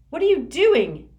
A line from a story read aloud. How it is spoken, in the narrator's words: yelled Cedric's voice